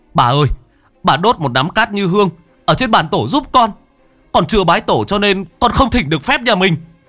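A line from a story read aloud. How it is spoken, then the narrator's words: Nearly shouting. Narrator (Vietnamese): Cha nói như hét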